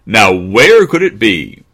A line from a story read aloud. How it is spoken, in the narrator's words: Snoopy barked loudly